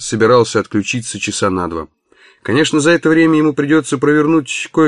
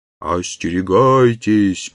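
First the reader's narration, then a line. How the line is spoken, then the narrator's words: Sepulchral moan. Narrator (Russian): простонал загробный голос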